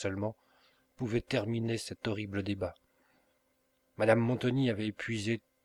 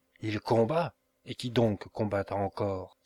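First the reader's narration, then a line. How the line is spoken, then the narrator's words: Exclaimed. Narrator (French): s'écria madame Montoni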